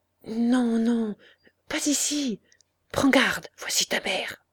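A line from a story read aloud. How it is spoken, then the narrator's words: Low, slightly hoarse whisper. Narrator (French): en lui disant tout bas, d'une voix un peu rauque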